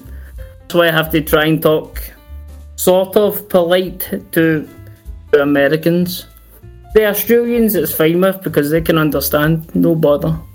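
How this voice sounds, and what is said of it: Thick Glasgow Scottish accent. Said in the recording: “I'm from Glasgow, which is a really, really, really thick accent.”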